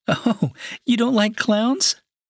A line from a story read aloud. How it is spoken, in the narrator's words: Jessica laughed and said